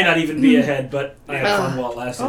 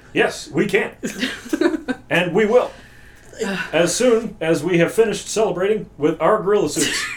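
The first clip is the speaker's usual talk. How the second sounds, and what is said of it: Imitates another person's voice. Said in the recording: “my Obama impression”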